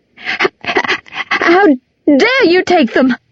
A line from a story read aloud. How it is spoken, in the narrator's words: shrieked